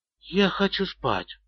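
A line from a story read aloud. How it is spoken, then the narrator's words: Whispered. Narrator (Russian): прошептала Шерил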